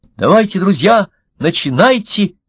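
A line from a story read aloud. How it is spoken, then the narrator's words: Shouted. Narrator (Russian): крикнул один из них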